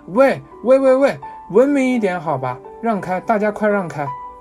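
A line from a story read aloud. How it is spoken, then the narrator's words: Shouting with full force. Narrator (Chinese): 户籍警运足浑身力道，穷喊一声讲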